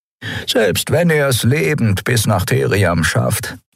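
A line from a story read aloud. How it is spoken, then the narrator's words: Plain. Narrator (German): sagte Veron gerade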